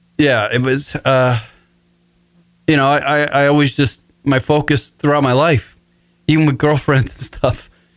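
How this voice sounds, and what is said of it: Emotional, choked-up voice. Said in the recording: “I'm getting a little emotional on the radio right now.”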